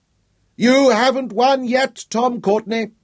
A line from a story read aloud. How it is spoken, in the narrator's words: Guy shouted after them